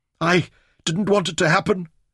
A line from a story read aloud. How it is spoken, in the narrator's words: he whimpered